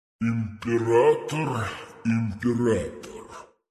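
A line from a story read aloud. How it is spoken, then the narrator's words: Booming, philosophically contemptuous. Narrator (Russian): прогудел он с философским презрением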